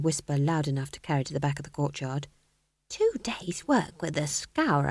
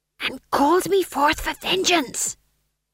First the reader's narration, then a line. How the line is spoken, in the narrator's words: hissed Tom John